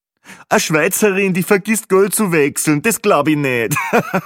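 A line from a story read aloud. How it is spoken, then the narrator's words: Joking, laughing loudly. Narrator (German): war nun schon der zweite lustige Kommentar von Peppi Gruber, und natürlich lachte er selbst am lautesten über sein fades Witzchen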